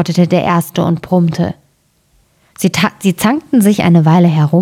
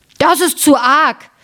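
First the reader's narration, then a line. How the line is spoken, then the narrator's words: Screamed. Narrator (German): schrie der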